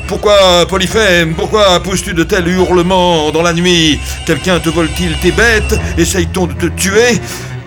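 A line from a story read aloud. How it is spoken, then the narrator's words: Deep bellowing shout. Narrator (French): Le robuste Polyphème cria du fond de son ventre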